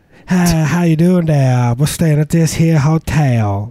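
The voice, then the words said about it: Put-on New Orleans Southern accent. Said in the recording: “New Orleans... That's how you talk... adopt that accent”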